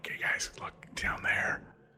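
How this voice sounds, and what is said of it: Whispering. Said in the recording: “I'll kind of whisper to everyone”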